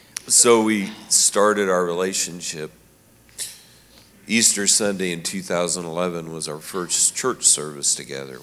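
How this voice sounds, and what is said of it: Emotional, choked-up voice. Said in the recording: “Sorry, I'm a little emotional.”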